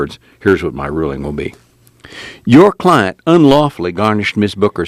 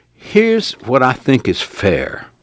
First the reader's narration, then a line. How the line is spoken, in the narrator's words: the judge said